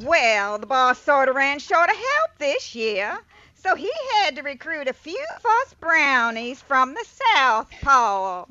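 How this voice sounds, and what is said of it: Character voice with southern accent. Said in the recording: “with a southern accent?”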